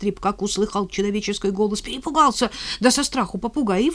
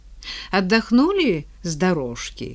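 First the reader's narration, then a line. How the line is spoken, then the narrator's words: Gentle, kind. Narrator (Russian): спросил он ласково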